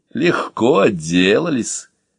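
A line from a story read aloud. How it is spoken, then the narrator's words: Approving laugh. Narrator (Russian): одобрительно засмеялся я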